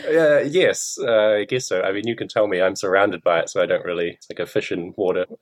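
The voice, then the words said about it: New Zealand accent, quick speech. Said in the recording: “you said it so quickly, didn't it? It was hard to hear. ... It's a very distinct accent, the New Zealand accent”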